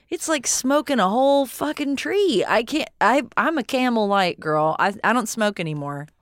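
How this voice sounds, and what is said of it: Regional accent getting noticeably thicker. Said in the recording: “my accent got a lot thicker when I said I'm a Camel Light kind of girl”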